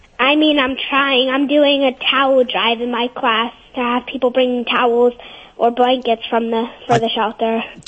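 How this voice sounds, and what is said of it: Slight New Jersey accent. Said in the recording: “That was in a little bit of a Joyzy accent you had there.”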